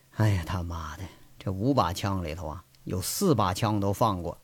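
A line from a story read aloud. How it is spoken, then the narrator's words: Sighing. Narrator (Chinese): 他叹了口气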